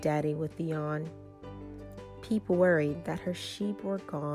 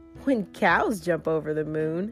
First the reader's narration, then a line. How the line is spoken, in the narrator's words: Blue laughed